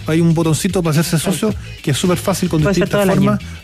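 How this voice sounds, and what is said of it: Radio announcer-like voice. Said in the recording (Spanish): “el capellán tiene voz de locutor. Debería tener un podcast o un programa en la radio.”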